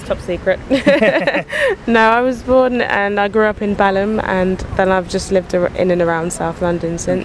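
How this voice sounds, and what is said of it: British accent. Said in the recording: “You do seem to have a British accent.”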